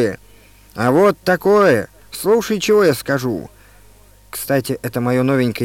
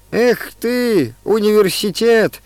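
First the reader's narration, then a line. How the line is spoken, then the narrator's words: Sobbing. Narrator (Russian): всхлипнул он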